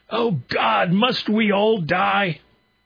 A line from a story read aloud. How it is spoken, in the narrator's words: Sobbing he shouted